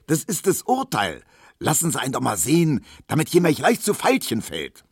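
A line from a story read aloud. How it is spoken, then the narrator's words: Shouting. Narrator (German): schrie Tisch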